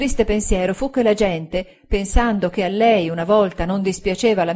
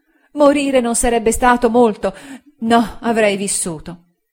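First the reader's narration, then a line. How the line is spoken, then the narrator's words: Exclamation. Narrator (Italian): Ella esclamò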